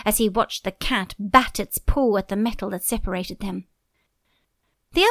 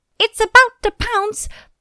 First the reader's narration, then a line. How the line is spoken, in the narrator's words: mice screaming